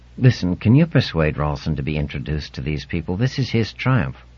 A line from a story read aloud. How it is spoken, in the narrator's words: hissed in his ear